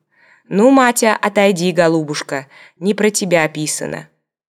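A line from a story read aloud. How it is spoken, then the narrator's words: Deep bass voice. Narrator (Russian): говорил мне своим густым басом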